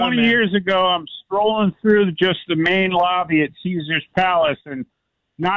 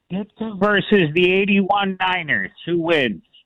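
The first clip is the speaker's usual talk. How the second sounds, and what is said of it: Put-on Chicago accent. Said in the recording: “With my best Chicago accent from SNL back in the days”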